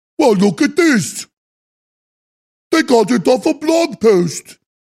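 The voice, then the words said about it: Imitates another person's voice. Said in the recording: “My imitation of him is not very good.”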